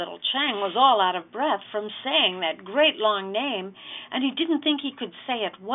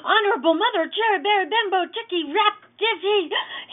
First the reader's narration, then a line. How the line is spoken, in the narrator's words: gasped